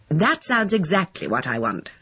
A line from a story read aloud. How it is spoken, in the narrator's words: said Lucy firmly